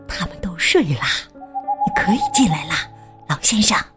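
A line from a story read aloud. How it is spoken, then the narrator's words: Whisper. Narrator (Chinese): 他小声说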